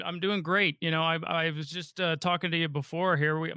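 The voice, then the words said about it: Slightly raspy voice. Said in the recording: “My voice is a little bit raspy. I was up coaching all night last night”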